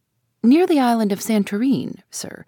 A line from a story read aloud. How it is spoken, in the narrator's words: replied the captain